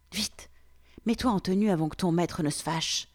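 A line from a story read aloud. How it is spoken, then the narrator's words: Girl whispering. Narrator (French): m'a soufflé la fille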